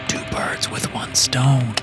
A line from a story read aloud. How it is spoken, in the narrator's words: I whispered